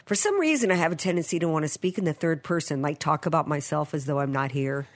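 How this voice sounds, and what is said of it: Voice sounds a little sick. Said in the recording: “I don't know if y'all can hear it in my voice, but I'm a little under the weather.”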